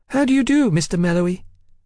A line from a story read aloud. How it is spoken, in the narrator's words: the boy piped